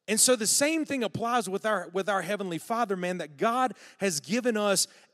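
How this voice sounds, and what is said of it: Southern drawl. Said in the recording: “has my southern drawl gotten worse? ... Maybe a little bit.”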